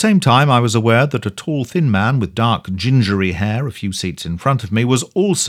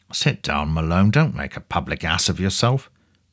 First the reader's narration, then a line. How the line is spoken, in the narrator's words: I heard him whispering